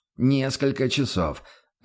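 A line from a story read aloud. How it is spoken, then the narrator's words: Confused reply. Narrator (Russian): растерянно отозвался Бруно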